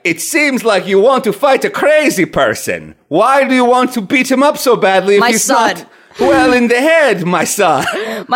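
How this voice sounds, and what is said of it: Imitates father's Greek accent. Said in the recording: “my dad sounds exactly like Balki Bartokomos ... He's the Greekest motherfucker that ever did Greek.”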